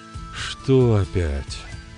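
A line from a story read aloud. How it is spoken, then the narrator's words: Weary questioning. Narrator (Russian): устало переспросил Берослав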